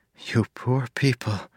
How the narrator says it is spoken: Marcy whispered

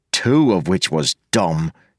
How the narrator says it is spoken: he said sullenly

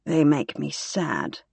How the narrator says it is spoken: murmured Somelia

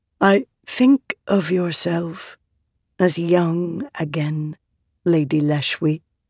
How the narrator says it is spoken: Venli said gently, to peace

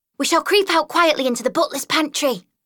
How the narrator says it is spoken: cried Mole

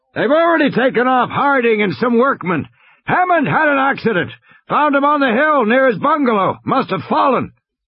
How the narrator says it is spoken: Muldoon shouted

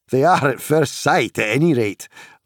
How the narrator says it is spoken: laughed Pippin with sudden relief

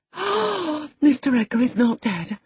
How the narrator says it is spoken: I gasped

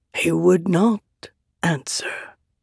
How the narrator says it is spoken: Taravangian said softly

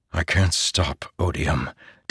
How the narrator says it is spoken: Dalinar whispered

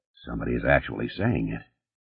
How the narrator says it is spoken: Connor murmured

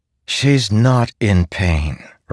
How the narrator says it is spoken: Renarin said back, sighing

